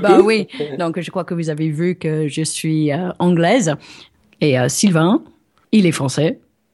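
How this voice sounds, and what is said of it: English accent speaking French. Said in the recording (French): “Avec l'accent.”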